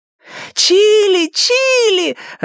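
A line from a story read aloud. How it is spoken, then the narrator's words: Joyful shriek, close up. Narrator (Russian): радостно завопила Элли прямо в ухо Луису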